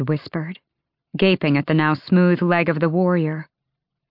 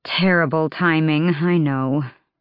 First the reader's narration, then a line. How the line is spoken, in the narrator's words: Irene sighed